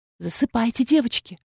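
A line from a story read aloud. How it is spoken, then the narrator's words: Soft whisper. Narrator (Russian): шепнула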